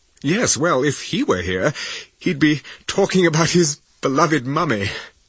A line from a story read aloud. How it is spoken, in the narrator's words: said Alex with a nervous laugh